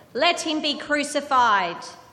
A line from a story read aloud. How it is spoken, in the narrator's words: they shouted all the louder